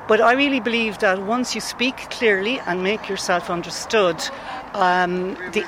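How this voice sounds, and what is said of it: Flat Kilkenny Irish accent. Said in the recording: “I'm very proud that I've hung on to my Kilkenny accent over 40 years ... It's very flat accent. Um, not good on the THs”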